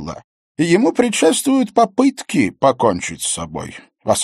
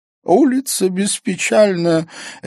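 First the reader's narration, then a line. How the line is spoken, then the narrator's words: Giggling. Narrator (Russian): Эон хихикнул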